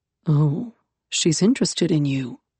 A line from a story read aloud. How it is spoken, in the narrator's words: Yaskander murmured